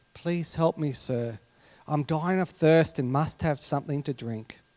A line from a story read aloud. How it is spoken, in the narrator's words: The desperate man mustered his last bit of energy and whispered to the restaurant's doorman